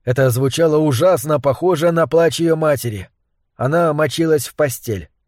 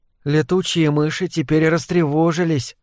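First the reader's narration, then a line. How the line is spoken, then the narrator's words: Confiding tone. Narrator (Russian): доверительным тоном сказала Вик мистеру Дезуту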